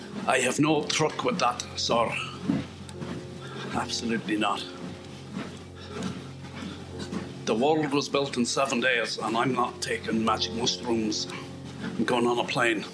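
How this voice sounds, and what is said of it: Put-on Scottish accent. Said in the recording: “That's just another uh, Scottish accent sample”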